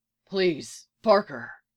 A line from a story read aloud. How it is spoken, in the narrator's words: he says quietly